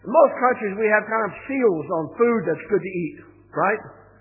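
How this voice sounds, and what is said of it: Non-American accent. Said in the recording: “You can tell by my accent that I'm not from there.”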